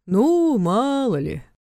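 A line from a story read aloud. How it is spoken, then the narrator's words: Displeased drawl. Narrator (Russian): протянул Войтович, недовольно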